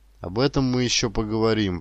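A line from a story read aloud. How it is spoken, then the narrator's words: Displeased grumble. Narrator (Russian): пробурчал Ермак недовольно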